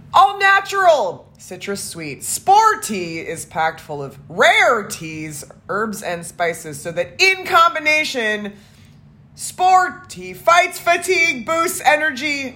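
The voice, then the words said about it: Loud, energetic shouting of some words. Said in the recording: “doing the louder energy voice ... shout all the words that are all caps”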